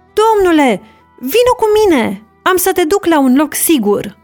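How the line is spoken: Shouting through window. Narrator (Romanian): un om a strigat prin fereastră

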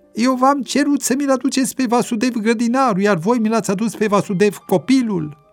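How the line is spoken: Angry roar. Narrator (Romanian): Plin de mânie, Yamraj a urlat la cei doi

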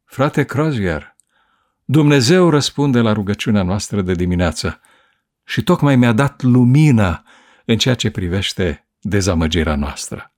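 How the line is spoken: Plain. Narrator (Romanian): i-a răspuns Edson

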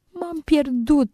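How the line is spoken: Tearful mumble. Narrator (Romanian): îngână ea plângând

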